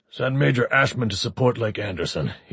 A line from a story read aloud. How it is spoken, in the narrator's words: said harshly